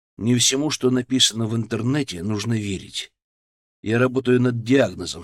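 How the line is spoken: Calm. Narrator (Russian): сказал я спокойно

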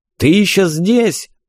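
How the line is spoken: Menacing yelling. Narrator (Russian): заорал я грозно

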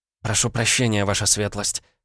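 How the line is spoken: Mumbled. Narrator (Russian): пробормотала Наталья

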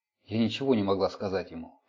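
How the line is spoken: Muttering. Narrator (Russian): пробормотала Эллин

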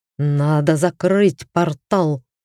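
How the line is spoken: Growl in altered voice. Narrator (Russian): прорычал Кабыр измененным голосом

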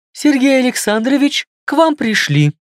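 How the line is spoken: Thin little voice. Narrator (Russian): тоненьким голоском сказала Маша

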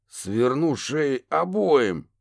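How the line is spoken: Helpless growl. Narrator (Russian): бессильно прорычал детектив

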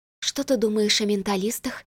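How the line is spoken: Quiet question. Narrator (Russian): негромко спросила я у подруги

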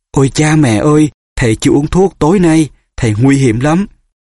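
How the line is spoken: Gasping cry. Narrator (Vietnamese): Hermione há hốc miệng kêu lên

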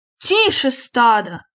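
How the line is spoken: Bellowing. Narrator (Russian): урядник заорал

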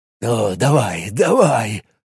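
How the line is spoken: Muttering. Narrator (Russian): бормотал он

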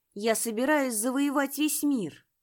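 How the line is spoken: Loud. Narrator (Russian): громко произнесла Лужа

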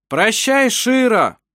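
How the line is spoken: Group shout. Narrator (Russian): крикнули они

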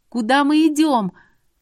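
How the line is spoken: Shouted. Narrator (Russian): Крикнула я

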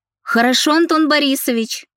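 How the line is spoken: Shouted reply. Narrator (Russian): крикнула я в ответ

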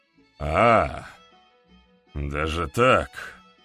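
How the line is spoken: Snort. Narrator (Russian): хмыкнул Петр Алексеевич

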